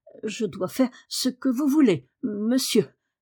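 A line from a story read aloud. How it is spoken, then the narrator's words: Embarrassed stammer. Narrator (French): balbutia Martha, toute rouge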